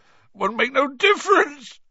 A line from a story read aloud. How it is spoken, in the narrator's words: sobbed Hagrid